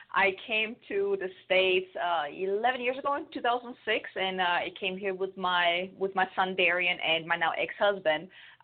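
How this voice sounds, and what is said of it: German accent. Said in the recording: “I'm from Germany, so if anyone is wondering where this weird accent is coming from, now you know.”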